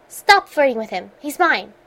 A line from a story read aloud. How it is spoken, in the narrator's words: Rodney snapped